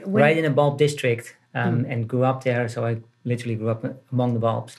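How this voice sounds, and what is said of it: Slight Dutch accent. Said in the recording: “You obviously have a bit of a Dutch accent”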